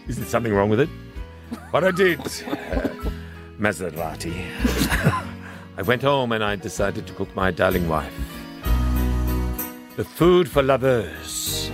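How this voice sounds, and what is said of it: Exaggerated fake French accent. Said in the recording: “It's offensive to the French... I hope you didn't talk in this accent.”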